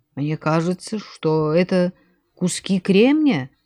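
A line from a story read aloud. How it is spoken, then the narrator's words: Uncertain. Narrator (Russian): сказал Хасан неуверенно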